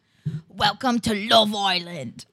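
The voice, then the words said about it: Weak Essex accent, sounds Australian. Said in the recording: “you're sounding a little, ... Little Aussie right now. ... there's like an Essex accent. ... I just not good at accents.”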